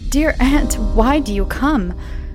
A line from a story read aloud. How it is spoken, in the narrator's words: almost gasped out